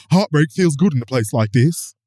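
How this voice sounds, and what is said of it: Put-on accent quoting a trailer. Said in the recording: “What an excellent accent that was. ... It was bad”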